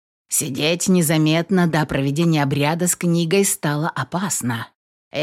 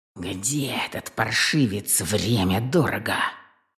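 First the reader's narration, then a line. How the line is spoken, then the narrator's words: Grumbling wizard. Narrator (Russian): проворчал колдун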